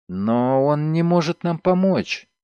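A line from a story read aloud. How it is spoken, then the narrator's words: Uncertain young woman. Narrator (Russian): неуверенно сказала девушка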